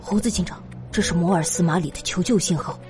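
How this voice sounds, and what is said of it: Quiet, hushed speaking voice. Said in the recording (Chinese): “他小声说道”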